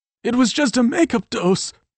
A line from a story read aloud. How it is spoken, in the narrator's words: Tyler pleaded, his fear growing